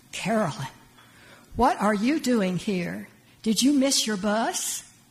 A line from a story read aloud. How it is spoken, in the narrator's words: I gasped